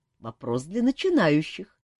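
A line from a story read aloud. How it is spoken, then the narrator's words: Laughing. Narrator (Russian): засмеялся король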